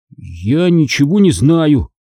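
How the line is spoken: Trembling voice. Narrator (Russian): сказал я мистеру Амгу дрожащим голосом

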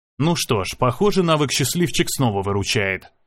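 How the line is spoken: Muttering. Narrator (Russian): пробормотал я

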